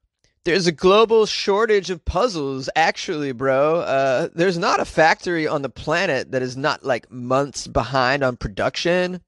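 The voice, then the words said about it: Laid-back surfer-dude voice. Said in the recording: “That was my impression of Brian Way, who likes to surf on the weekends.”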